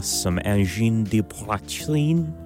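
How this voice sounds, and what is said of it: Terrible put-on French accent. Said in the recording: “I say in a terrible French accent.”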